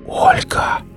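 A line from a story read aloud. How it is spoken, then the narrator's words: Barely audible whisper. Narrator (Russian): Денис еле слышно прошептал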